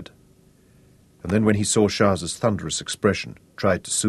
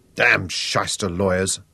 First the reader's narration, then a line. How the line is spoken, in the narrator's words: said Shaza bitterly